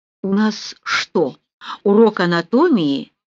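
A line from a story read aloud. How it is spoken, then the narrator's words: Hoarse whispered question. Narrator (Russian): хриплым шепотом спросила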